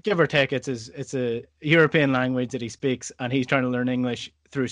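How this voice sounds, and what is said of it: Scottish accent. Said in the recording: “incredibly difficult to understand because of my accent ... Scottish people”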